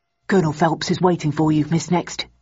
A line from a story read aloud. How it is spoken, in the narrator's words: murmured the man in an affable tone